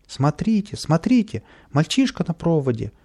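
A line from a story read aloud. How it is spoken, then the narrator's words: Frightened shouting crowd. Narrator (Russian): испуганно кричали прохожие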